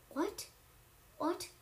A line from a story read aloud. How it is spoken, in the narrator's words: sputtered